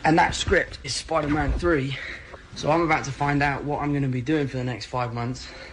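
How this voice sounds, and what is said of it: English accent. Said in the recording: “It's wild hearing him with the English accent”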